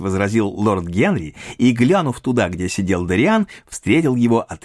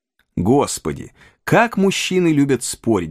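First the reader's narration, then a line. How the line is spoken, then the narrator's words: Sigh. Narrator (Russian): вздохнула леди Агата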